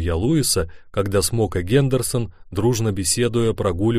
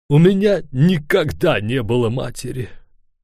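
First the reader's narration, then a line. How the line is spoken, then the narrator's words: Sighing. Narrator (Russian): вздохнул повар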